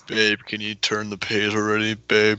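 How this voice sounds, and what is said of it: Imitates a stereotyped bookish boyfriend. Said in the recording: “That's my impression of guys who read.”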